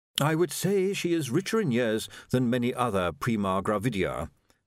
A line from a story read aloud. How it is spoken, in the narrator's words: said Willikins smoothly